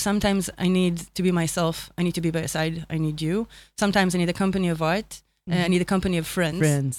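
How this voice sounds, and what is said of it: Speaks English with an accent. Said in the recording (Hebrew): “שהמבטא שלך פשוט מהמם בעיניי”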